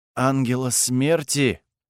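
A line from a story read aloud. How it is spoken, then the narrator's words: Spellbound exhale. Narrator (Russian): завороженно выдохнул Эйк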